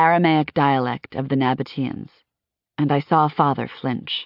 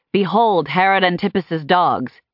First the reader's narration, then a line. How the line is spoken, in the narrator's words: someone in the crowd shouted